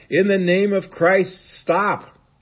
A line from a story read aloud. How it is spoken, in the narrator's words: he started shouting in a loud voice